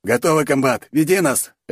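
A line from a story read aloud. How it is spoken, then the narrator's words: Barked. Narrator (Russian): рявкнул Шатун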